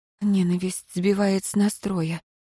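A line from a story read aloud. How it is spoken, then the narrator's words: Barely audible whisper. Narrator (Russian): прошептала так тихо, что едва расслышала сама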